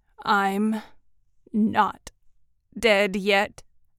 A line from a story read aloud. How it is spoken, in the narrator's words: the prisoner said brokenly